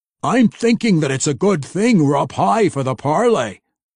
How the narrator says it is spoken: Brunner said too loudly

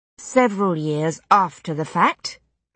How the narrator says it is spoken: I said, rather coldly

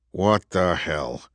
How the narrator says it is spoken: Andrew muttered

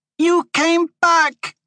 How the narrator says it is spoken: she shouted

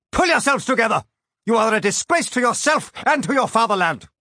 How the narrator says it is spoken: I would have loved to shout

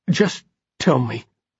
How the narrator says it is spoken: Simon said, his voice shaking

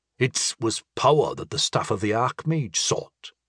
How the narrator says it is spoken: reminded Sandy grimly

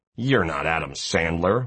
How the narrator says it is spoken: one punk sneers dismissively

